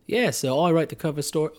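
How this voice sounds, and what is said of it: Put-on English accent, drifting Australian. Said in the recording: “my accent. Traveling in England, it just kind of comes in and out. ... my first crack at this accent was a little more Australian”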